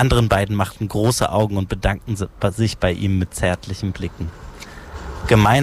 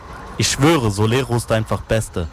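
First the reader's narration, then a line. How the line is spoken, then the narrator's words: Plain. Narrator (German): sagte der eine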